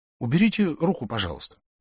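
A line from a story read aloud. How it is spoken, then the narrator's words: Plain. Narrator (Russian): сказал я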